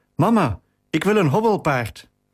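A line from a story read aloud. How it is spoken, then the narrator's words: Breathless calling out. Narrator (Dutch): riep buiten adem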